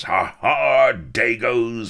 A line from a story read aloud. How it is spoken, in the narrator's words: he bellowed